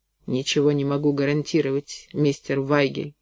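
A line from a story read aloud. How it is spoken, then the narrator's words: Muttered. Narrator (Russian): пробормотал я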